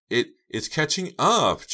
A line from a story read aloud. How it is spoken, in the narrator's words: Jade wailed from the back seat